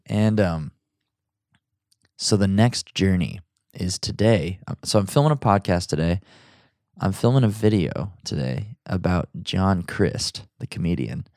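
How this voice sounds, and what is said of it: Deep, groggy morning voice. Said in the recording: “my voice sounds surly and deep and sexy, it's because it's the morning and I'm still a little bit groggy ... This is my podcast voice.”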